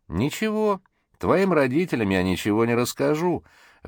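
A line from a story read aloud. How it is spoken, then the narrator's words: Sudden loud laughter. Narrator (Russian): вдруг захохотал сержант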